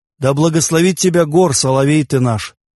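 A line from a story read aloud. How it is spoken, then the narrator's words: Laughing. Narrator (Russian): засмеялся Тан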